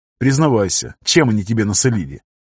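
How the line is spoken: Chuckle turning serious. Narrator (Russian): Баши хохотнул, но тут же посерьезнел

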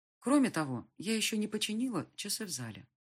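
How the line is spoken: Timid reminder. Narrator (Russian): робко напомнила

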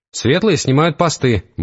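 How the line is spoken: Brisk cheerful report. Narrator (Russian): бодро доложил Вервольф

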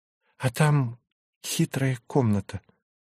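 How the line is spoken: Confiding tone. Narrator (Russian): доверительным тоном сообщила Мария Федоровна

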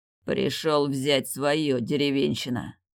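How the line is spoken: Growled. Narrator (Russian): прорычал он

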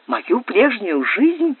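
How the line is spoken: Beauty whispering. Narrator (Russian): прошептала красавица

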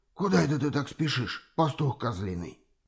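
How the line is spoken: Hoarse voice. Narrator (Russian): послышался сиплый голос

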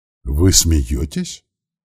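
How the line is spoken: Count's cracked voice. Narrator (Russian): каким-то надтреснутым голосом осведомился граф

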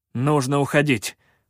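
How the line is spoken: Barked. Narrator (Russian): рявкнул я

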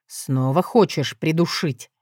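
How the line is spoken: Smiling. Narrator (Russian): белозубо улыбнулся он

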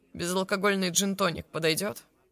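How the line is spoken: Condescending chuckle. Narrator (Russian): Блэквуд снисходительно хохотнул

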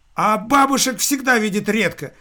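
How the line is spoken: Delighted exclamation. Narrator (Russian): с восторгом воскликнул будущий новый сотрудник

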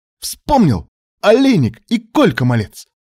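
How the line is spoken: Careless exclamation. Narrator (Russian): Позабыв об осторожности, воскликнул Кривоногов

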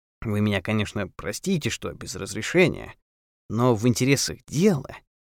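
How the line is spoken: Undertone, kept from being overheard. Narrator (Russian): сказал он вполголоса, чтобы не услышали дорожники

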